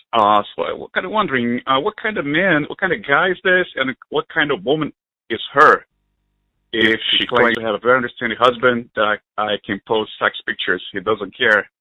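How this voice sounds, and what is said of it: Non-native English accent. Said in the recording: “I hope it could pick up my accent. I wasn't born here”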